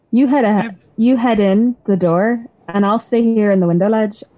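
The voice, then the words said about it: Inconsistent put-on accent. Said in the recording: “the most inconsistent accent I've ever done in my entire life”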